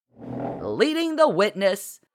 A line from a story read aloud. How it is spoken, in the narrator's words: Marci shouted